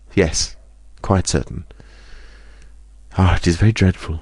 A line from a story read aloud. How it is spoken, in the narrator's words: She sighed and said